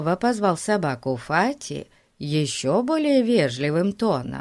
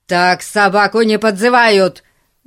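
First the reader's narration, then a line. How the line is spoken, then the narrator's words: Impatient yelling. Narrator (Russian): заорал полицейский, начиная терять терпение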